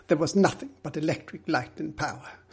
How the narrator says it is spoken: Middleton replied firmly

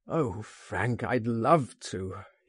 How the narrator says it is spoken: he groaned

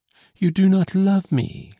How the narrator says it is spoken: she exclaimed

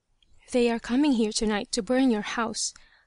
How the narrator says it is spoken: the same voice whispered

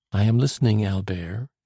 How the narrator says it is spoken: she replied

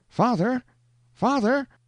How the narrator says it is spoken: exclaimed a piercing cry from out of the mist

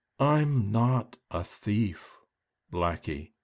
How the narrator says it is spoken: she said so slowly I thought she was going to make every word her last

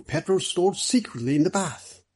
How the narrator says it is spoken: Middleton excitedly

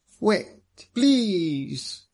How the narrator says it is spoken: he cried

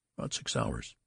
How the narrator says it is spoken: answered Mr

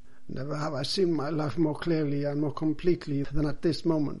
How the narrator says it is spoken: said Manuel

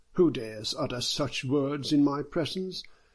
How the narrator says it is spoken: Chen Jia exclaimed

